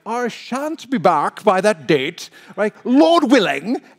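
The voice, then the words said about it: Put-on British accent. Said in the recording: “I always say it with a British accent”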